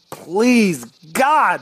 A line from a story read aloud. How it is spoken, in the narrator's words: yelled